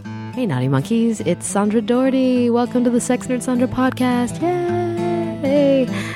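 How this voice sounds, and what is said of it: Sick voice, sounds different than usual. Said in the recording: “do I sound different than usual? Maybe. I caught the con crud from San Diego Comic-Con last weekend, and I have been a mess all week. I'm feeling better. I'm still coughing”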